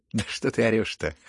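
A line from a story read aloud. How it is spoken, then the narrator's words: Laughing. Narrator (Russian): хохотала на него Настасья Филипповна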